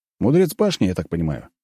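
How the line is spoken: Plain question. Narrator (Russian): спросил я

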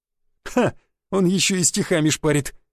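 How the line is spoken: Nervous chuckle. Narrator (Russian): нервно хохотнул крепкий, морда которого была заклеена пластырем

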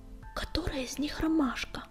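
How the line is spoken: Whispered question. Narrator (Russian): шепотом спросила она

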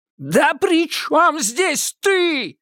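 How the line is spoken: Startlingly loud yell. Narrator (Russian): заорал доктор так, что Маша дернулась от неожиданности

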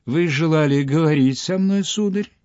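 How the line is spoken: Honeyed voice. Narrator (Russian): Коменш заговорил медовым голосом

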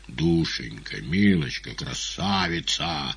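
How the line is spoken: Wheezing. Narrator (Russian): засипел Коровьев

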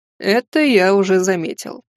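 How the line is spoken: Giant's snort. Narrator (Russian): хмыкнул великан

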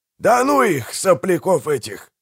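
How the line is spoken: Snorted. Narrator (Russian): фыркнул Пиви

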